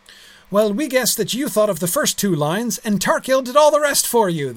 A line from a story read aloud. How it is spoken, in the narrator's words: they cried